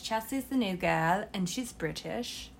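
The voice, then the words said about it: Weak put-on British accent. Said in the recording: “this is my British accent, and it's not very good”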